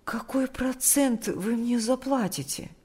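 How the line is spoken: Timid question. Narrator (Russian): спросила она робко

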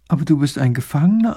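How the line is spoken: Plain. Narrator (German): antwortet die Prinzessin

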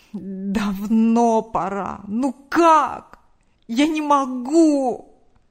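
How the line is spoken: Groan. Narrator (Russian): Простонал мужчина

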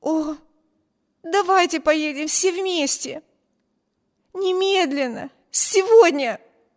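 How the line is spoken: Excited exclamation. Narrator (Russian): воскликнула Эми

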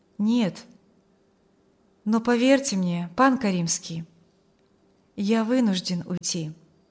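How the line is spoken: Calm objection. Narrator (Russian): возразил юноша спокойно

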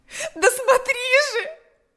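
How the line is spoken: Shouting. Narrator (Russian): закричала

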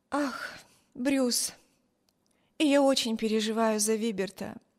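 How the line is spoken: Sighing. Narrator (Russian): вздохнула Эми

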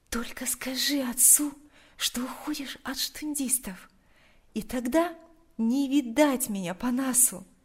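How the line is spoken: Quiet. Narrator (Russian): тихо произнесла она

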